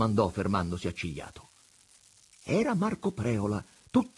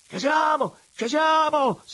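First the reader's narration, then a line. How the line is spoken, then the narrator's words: Approaching shout. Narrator (Italian): si mise a gridare, appressandosi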